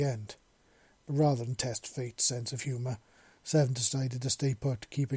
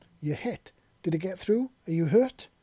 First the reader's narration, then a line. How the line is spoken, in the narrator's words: she exclaimed, surprising both Ven and Seven with her concern